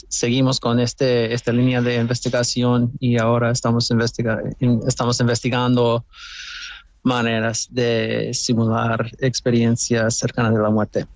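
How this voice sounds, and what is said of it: North American accent speaking Spanish. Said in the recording (Spanish): “Tú eres norteamericano, ese acento lo pone de manifiesto.”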